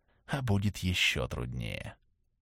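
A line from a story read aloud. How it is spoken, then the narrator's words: Whispered. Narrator (Russian): сказал он шепотом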